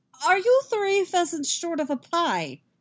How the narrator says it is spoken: Yaskir sputters

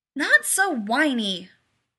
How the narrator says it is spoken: Rodney snapped

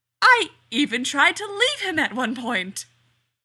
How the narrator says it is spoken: the man giggled hysterically

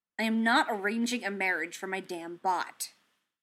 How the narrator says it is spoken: Tony grumbled

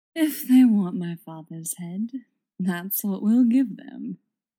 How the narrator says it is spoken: he purrs

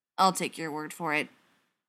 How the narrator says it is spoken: said stiffly

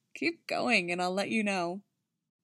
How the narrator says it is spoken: She let out a high-pitched giggle, then said

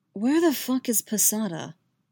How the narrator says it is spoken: Yaskir gasps in shock

